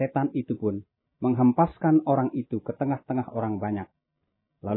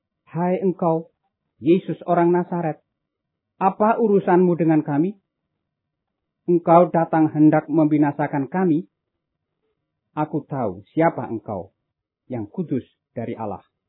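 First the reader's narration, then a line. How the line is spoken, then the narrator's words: Possessed man shouting loudly. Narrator (Indonesian): seorang yang kerasukan setan, dan ia berteriak dengan suara keras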